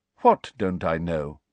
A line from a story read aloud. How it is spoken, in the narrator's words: asked Dumbledore calmly